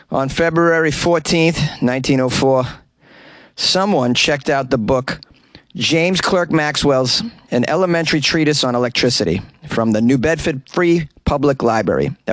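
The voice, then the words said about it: Put-on Boston accent. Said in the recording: “I'm going to embellish it with a Boston accent”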